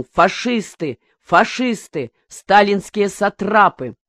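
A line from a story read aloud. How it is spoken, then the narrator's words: Sudden shout. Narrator (Russian): Вдруг кто-то крикнул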